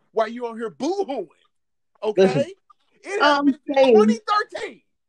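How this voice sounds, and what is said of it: Yelling, loud agitated voice. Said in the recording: “Why are you yelling?”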